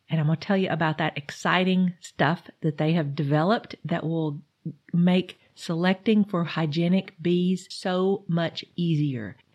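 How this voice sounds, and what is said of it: Allergy-affected, congested voice. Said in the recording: “apologize for my voice today. I have allergies. I have a lot of allergies. ... Hard to sound good on the radio”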